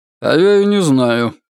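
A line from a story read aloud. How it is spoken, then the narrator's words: Gloomy reply. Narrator (Russian): мрачно ответил маркиз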